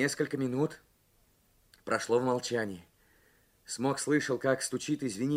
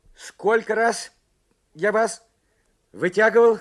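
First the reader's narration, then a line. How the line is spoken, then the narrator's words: Loud question. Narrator (Russian): громко спросил Карсон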